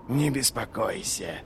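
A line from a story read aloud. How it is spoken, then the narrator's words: Whispered. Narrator (Russian): прошептал Доу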